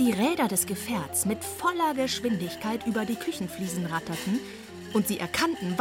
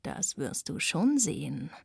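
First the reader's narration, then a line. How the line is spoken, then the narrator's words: Low murmur. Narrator (German): raunte Radek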